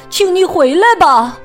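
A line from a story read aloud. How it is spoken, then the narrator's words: Shouting. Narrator (Chinese): 阿蒙大喊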